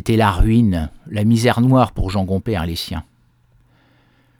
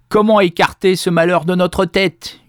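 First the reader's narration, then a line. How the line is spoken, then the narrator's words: Yelled. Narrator (French): hurlait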